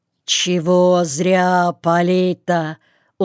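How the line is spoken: Hoarse bear voice. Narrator (Russian): сиплый голос медведя

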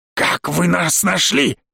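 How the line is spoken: Inhuman bark. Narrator (Russian): Рявкнул мужик совсем не по-человечески как-то

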